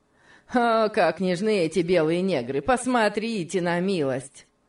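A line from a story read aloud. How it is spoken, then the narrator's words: Mocking mimicry. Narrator (Russian): Сэмбо насмешливо стал передразнивать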